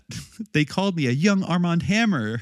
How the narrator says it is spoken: I screamed

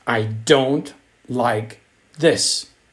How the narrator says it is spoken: shouted Andrew

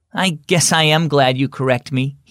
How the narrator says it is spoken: he said

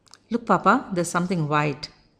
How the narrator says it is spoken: mother said

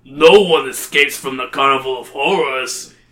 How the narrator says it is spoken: he roars

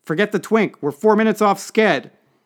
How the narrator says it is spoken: the advance man yelling

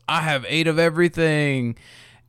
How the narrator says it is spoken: he yells

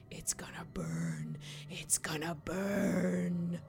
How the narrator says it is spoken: the man whispering again

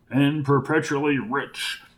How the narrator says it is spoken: replied Hamilton Fletcher under his breath

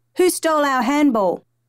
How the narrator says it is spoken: Two irate firemen yelling

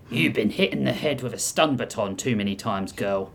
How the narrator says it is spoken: Hijoki muttered

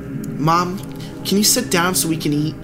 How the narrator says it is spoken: I begged

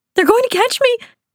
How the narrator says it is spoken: I cried, my mind lost to fear

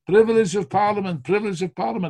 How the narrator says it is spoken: people shouting

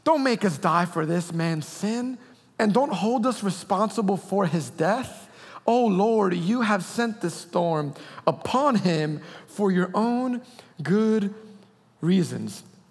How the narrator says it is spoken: pleaded

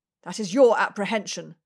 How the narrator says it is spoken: Bradshaw snapped

